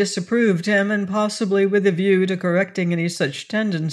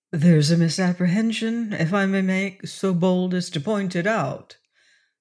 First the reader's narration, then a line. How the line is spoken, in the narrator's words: put in Blood quietly